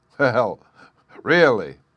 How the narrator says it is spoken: he cried

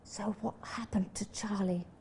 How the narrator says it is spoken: whispered

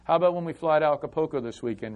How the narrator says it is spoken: Rolando says

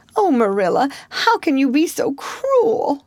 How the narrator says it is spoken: sobbed Anne

